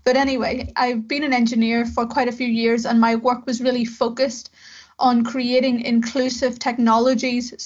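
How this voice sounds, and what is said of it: Northern Irish accent. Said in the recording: “in Belfast in the north of Ireland, where I'm from. As you can maybe tell by my accent, although people seem to somehow think I'm either Scottish or from America”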